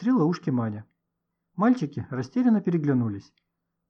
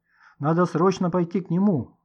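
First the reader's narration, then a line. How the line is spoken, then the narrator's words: Exclaiming. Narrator (Russian): воскликнул Никита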